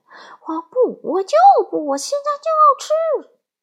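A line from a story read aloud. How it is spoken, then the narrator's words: Crying, wailing. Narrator (Chinese): 小玫瑰鹦鹉仍然继续哭喊着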